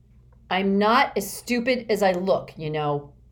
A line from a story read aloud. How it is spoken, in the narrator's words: Gilson roared